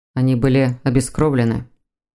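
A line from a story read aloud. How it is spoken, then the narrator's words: Hollow, muffled. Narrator (Russian): глухо произнес Константин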